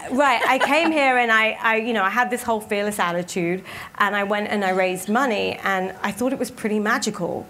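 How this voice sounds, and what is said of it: English accent. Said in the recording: “I was this woman from England... I had this funny accent that half the people didn't understand.”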